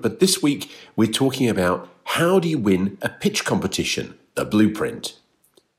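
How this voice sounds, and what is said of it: Congested voice from a cold. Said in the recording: “I've got a bit of a cold, so my voice sounds a bit different.”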